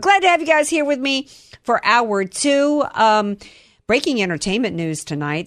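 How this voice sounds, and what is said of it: Raspy voice. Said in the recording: “if I sound all raspy, it's because I'm choking up coffee grounds in my throat”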